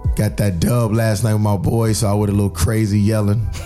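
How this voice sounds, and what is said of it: Raspy, deep voice. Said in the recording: “I might sound like Barry White. ... My voice is raspy.”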